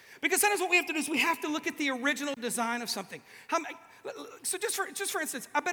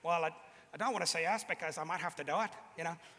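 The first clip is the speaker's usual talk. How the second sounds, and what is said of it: Put-on Northern Irish Coleraine accent. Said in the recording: “Don't be all Northern Irish on me ... Close? Not even. ... It's a Coleraine accent.”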